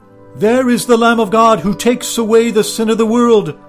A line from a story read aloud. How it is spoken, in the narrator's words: John called out to him and said